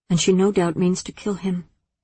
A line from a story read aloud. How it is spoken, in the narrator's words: Athene murmured